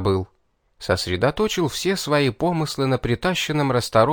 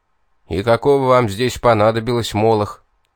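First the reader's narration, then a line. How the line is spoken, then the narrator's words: Irritated question. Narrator (Russian): Раздраженно поинтересовался Тьер Труно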